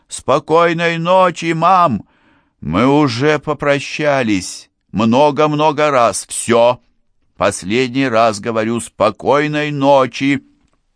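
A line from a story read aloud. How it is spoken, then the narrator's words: Shouting. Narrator (Russian): Я кричал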